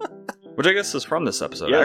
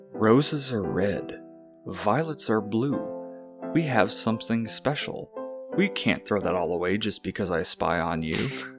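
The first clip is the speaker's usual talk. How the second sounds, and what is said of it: Theatrical poetry-reading voice. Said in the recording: “put on my poetry voice.”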